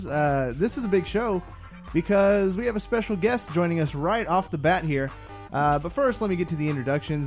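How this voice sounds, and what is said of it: Excited, shivery, slightly higher-pitched voice. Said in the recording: “I am very excited right now. You can probably tell in my voice ... Sound shivery? ... Little shivery. Bit higher pitch.”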